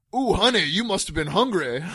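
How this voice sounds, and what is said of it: Put-on Aunt Jemima-ish accent. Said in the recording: “put on this, like, Aunt Jemima-ish, like, accent.”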